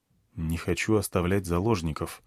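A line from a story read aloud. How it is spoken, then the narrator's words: Quiet, secretive reply. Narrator (Russian): ответил тихо, чтобы они не слышали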